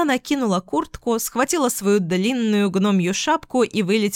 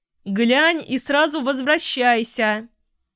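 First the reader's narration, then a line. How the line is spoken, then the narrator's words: Mother calling out after. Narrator (Russian): крикнула ей вслед мама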